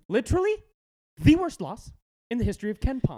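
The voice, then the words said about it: Imitates a TV character's voice. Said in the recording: “my best Parks and Rec impersonation”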